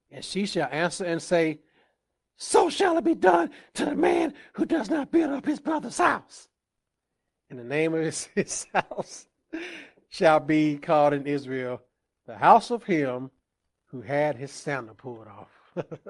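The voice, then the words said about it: Animated impression of a woman. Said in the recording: “I had to animate that a little bit. ... I did my best impression of a lady.”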